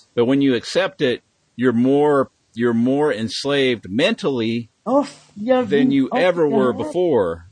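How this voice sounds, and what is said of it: Oklahoma accent. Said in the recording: “your Oklahoma accent”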